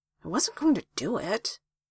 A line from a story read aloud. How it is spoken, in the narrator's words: He muttered